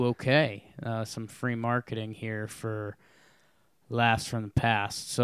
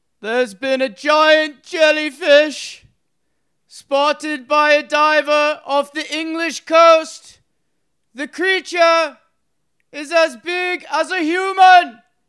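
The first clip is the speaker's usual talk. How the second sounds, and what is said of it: Roman orator voice. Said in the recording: “In your Roman orator voice ... he'd be a great Roman orator”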